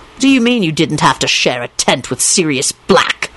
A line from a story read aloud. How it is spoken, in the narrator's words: Lupin said angrily